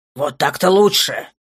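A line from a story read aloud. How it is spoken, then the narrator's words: Grumbling. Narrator (Russian): проворчал Рурар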